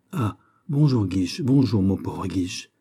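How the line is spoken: Prince's exclamation. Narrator (French): s'écria le prince

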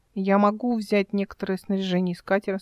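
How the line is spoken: Plain. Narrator (Russian): спросила она

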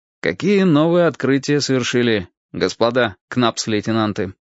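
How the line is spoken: Plain. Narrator (Russian): Я сказал

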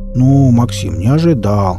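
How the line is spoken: Hurt drawl. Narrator (Russian): обиженно протянул Энд

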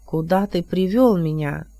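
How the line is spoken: Sighing. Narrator (Russian): Морган Меган вздохнул

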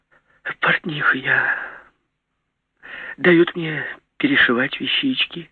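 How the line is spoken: Deep sigh. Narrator (Russian): вздохнула глубоко

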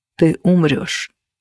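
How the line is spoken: Very quiet. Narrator (Russian): произнес он так тихо, чтобы услышала я одна

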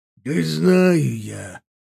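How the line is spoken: Half-orc snort. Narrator (Russian): фыркнул полуорк

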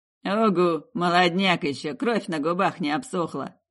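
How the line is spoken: Scoffing snort. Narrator (Russian): Кучерявый хмыкнул

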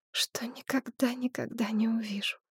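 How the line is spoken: Muffled whisper into shoulder. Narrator (Russian): шептала Шепсет, уткнувшись Меджаю в плечо

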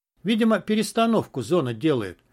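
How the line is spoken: Calm, nonchalant. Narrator (Russian): как ни в чем не бывало, спокойно сообщил Буба

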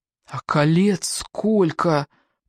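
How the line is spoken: Whisper. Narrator (Russian): прошептал рядом Сева

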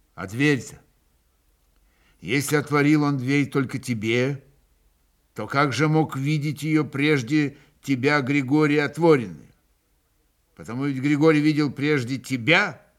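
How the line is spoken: Peaceful, not angry. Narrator (Russian): Иван спрашивал самым мирным голосом, даже совсем как будто другим тоном, совсем не злобным

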